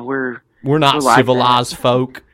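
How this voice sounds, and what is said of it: Put-on Southern accent. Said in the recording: “Southern accent.”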